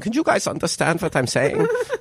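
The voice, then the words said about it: Put-on German accent. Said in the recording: “It was in German accent.”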